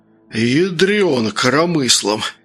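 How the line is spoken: Hoarse. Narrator (Russian): прохрипел Сергей

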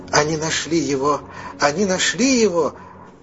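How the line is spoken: Joyful shout. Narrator (Russian): радостно закричала Фелефи

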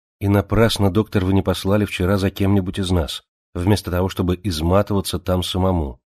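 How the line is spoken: Plain. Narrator (Russian): сказала Джемма

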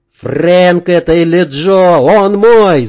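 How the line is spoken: Shouted. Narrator (Russian): закричал Сергей

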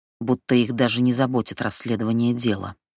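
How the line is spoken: Grumble. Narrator (Russian): проворчала она

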